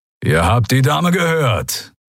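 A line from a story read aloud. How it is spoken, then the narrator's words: Growl. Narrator (German): knurrte Keru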